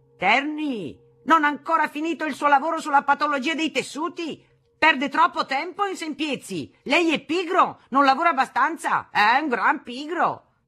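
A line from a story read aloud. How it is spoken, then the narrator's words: Yelling. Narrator (Italian): urlava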